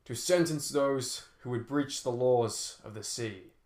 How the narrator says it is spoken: said the warden in a booming voice

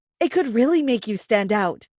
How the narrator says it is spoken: she said

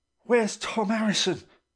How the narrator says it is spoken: gasped one of the men, in the midst of his exertions

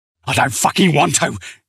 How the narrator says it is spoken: spat

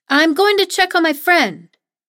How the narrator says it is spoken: I shout

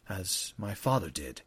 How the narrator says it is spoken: Eliam said quietly

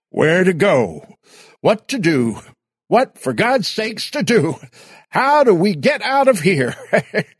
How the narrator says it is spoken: They all screamed at once

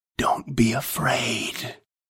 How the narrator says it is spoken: whispered

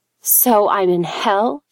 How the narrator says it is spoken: spat back

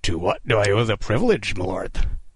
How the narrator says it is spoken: Kidd rasped, masking his terror with ironic courtesy

